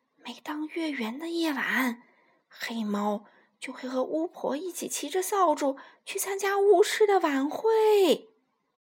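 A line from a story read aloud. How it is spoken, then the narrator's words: Mysterious whisper. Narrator (Chinese): 卢茨佩罗停顿了一下，神秘的小声说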